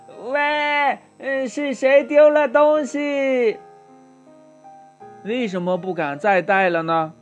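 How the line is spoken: Hurried shout. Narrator (Chinese): 琪琪赶紧大喊道

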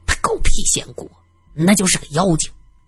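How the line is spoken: Ragged beggar grumbling with scorn. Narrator (Chinese): 一个衣衫褴褛的乞丐 啐了一口，嘟囔着

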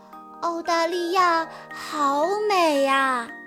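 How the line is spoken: Silent inner admiration. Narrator (Chinese): 乐迪不由得在心里赞叹道

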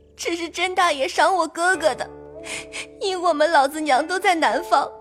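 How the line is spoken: Tearful pleading. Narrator (Chinese): 入画只得跪下哭诉真情，说

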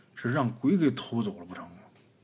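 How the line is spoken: Frightened inner muttering. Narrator (Chinese): 王虎被吓得冷汗一下就冒出来了，心里边嘀咕啊

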